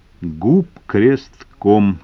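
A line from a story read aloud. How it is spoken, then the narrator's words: Slow repetition. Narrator (Russian): медленно повторил Шагалов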